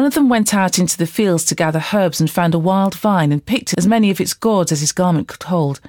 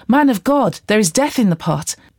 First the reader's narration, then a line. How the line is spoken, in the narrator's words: they cried out